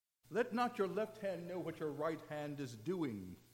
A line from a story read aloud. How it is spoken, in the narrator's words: Jesus said